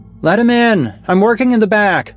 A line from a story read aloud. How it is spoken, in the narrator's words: I heard her voice call from inside